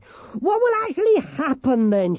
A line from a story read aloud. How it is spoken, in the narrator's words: She shouted